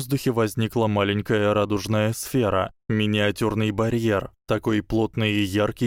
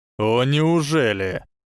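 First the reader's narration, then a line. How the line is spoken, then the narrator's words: Irritated reply. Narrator (Russian): Раздраженно отозвался Ли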